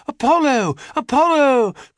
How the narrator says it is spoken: cried the nymphs and dryads

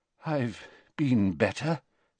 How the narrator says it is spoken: said Dumbledore weakly

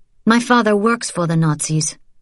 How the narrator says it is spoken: she said bitterly

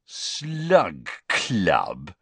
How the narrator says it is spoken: repeated Ron, with a sneer worthy of Malfoy

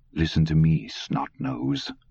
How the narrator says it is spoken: Dusander said quietly

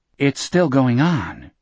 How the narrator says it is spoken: the survivor said calmly

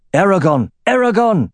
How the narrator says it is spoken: Then Albreg, for it was Albreg, shouted

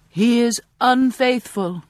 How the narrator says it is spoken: I shout from my pulpit

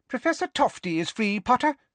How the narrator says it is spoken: squeaked Professor Flitwick

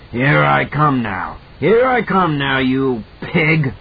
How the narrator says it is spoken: Behind her, that hoarse voice bellowed

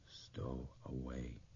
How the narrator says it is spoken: father's voice whispered

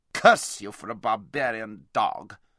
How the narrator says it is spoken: spluttered Rabadash

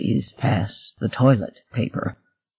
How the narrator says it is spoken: Jingle said in a low, trembling voice

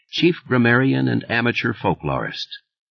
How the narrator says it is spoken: Thad murmured

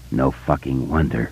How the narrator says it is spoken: Richie said hoarsely

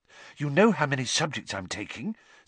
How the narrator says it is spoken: said Hermione breathlessly

